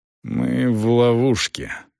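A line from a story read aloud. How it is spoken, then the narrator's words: Through gritted teeth. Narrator (Russian): процедил Селдон сквозь зубы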